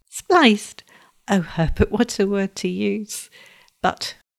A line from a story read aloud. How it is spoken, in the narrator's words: laughed softly